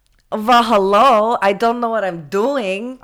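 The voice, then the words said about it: Loud, poor imitation of another person. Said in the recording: “I would do that voice... Wow, that's loud... that was a terrible impression of me”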